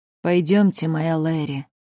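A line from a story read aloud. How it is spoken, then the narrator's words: Husband speaking softly. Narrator (Russian): негромко произнес муж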